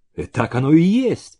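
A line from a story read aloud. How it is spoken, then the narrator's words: Exclaimed. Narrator (Russian): воскликнул Зеленин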